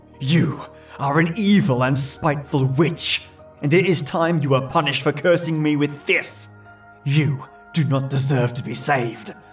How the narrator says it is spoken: saliva scattered across her face as he yelled

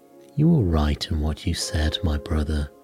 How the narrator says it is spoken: said Sindri

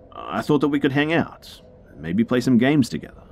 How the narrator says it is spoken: quickly followed up with

